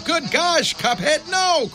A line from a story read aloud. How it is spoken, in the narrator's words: cried Mugman, for he understood the danger